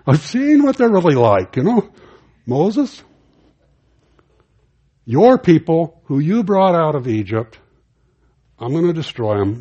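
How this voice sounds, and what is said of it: Put-on Jewish accent. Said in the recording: “I almost slipped into a Jewish accent”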